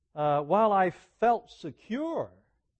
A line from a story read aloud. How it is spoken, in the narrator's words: said